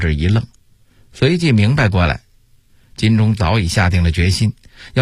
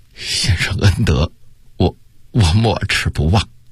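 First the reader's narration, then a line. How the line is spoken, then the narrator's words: Choked, emotional. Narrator (Chinese): 心头顿时一热，哽咽地说道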